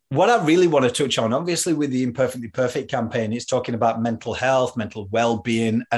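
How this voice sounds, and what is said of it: Mixed Yorkshire and Australian accent. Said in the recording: “I'm obviously from Yorkshire and I can't lose the accent. Like, so it's a little bit mixed between Australian and Yorkshire”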